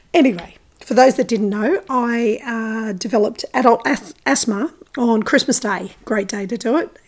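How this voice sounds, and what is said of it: Croaky voice. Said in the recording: “my voice is a bit croaky still”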